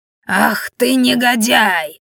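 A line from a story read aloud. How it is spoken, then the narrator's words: Growled. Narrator (Russian): прорычала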